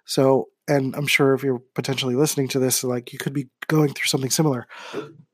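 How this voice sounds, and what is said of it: Voice going hoarse and fading. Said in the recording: “I'm losing my voice as I'm talking.”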